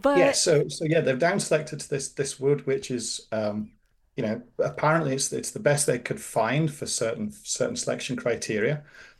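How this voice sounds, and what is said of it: Speaks with a noticeable accent. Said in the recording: “I am enjoying the accent.”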